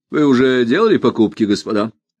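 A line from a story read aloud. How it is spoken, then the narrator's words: Casual, changed tone. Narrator (Russian): спросил он совсем уж другим, небрежным тоном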